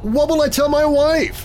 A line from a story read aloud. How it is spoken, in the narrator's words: George shouted